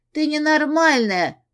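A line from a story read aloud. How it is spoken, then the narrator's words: Shout. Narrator (Russian): прокричала Си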